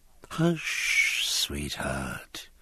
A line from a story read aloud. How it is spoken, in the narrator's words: murmured his captain, whose dreaming mind was occupied with quite another sex